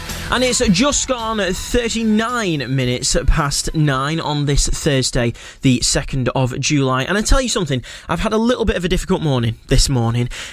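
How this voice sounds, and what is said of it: Northern English accent. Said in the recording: “my stronger northern accent”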